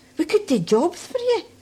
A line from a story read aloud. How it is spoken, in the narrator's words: cried the rest